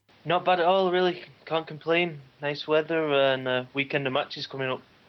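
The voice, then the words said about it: Northern English accent, near Manchester. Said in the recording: “that does not sound like a Mexican accent to me ... It's not the traditional Mexican accent, is it? But I'm from Rochdale, which is about 20 minutes outside of Manchester.”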